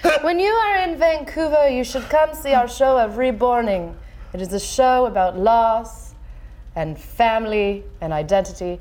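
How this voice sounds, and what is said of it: Doll character voice, different accent. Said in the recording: “she's going to be a different accent”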